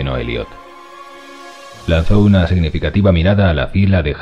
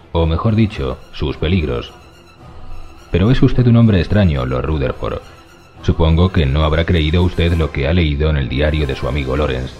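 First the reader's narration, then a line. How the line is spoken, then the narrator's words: Calm answer. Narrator (Spanish): contestó Ramsay con voz calma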